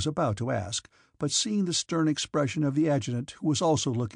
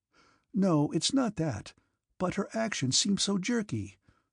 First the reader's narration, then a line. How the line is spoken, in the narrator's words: said Pierre in a puzzled tone